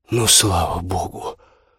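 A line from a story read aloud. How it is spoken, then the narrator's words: Relieved exhale. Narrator (Russian): облегченно выдохнул Юлька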